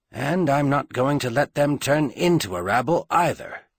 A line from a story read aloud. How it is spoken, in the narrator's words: he promised himself and them grimly